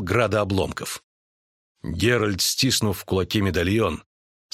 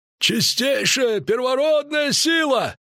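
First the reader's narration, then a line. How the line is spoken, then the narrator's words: Shouted over the din. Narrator (Russian): крикнул друид, перекрывая гул и грохот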